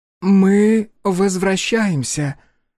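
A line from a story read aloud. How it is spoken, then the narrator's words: Hoarse, old, agitated voice. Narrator (Russian): бросила она гребцам хриплым от старости и волнения голосом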